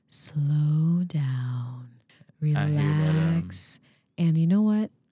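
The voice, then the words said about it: Slow radio voice. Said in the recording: “my slow radio voice”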